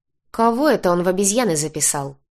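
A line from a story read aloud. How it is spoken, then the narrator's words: Displeased grumble. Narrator (Russian): недовольно проворчал Крис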